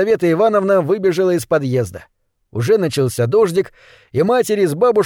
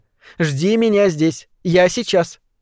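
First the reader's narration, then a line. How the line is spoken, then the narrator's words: Stern. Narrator (Russian): сказала Сашеньке строго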